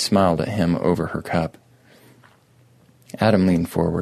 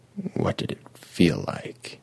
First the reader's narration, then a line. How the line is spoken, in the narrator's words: asked quietly